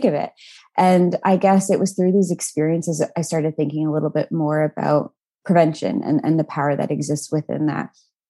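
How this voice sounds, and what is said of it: Canadian accent. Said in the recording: “with a Canadian accent”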